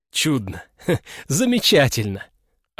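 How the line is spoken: Nervous laugh, regaining composure. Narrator (Russian): Александр нервно хохотнул, но было видно, что он постепенно овладевает собой

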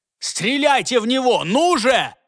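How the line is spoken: Yelling. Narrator (Russian): заорал он

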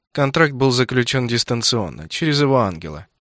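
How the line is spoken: Steady, even male voice. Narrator (Russian): все тем же ровным голосом произнес Франко

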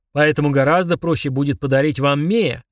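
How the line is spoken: Bark. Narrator (Russian): рявкнул Фрундорог

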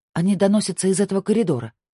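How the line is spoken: Plain. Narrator (Russian): сказала Сабина

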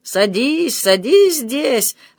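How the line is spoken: Bursting laughter. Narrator (Russian): расхохотался он

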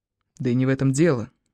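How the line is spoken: Quiet. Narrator (Russian): тихо сказал он

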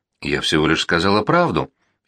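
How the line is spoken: Frightened countess. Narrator (Russian): испуганно молвила графиня

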